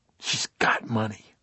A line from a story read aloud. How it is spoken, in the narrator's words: Bobby almost spat